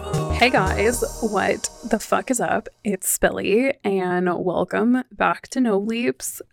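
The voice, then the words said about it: Hoarse, stuffy-nosed voice. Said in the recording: “you can probably tell my voice is like totally shot. My like nose is still allergy driven ... stuffy nose”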